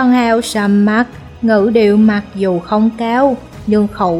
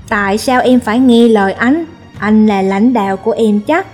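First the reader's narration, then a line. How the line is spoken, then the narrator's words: Cold, displeased huff. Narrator (Vietnamese): Mỹ nữ lạnh lùng hừ một tiếng, không vui nói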